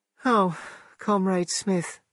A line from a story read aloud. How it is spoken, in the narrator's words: she said, in a dull, little voice